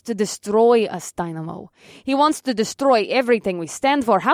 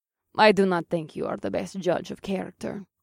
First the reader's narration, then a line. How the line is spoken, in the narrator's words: Killer Kitten said in her slight Russian accent